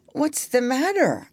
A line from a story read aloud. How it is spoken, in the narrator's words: I asked, with a yawn